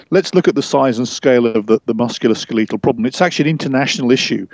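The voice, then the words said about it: English accent. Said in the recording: “talk with a funny English accent”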